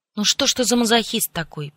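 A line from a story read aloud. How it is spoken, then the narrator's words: Grumble. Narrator (Russian): проворчала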